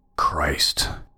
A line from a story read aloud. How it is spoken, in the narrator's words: I muttered to myself